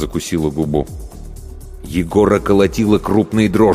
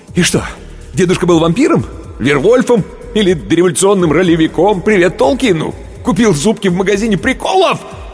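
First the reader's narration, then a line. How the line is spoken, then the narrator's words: Yelling. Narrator (Russian): Он уже орал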